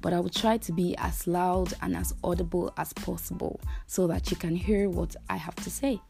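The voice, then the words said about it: Low, strained voice from losing it. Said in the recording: “my voice is going to be a little bit low in this segment, and that's because I'm losing my voice”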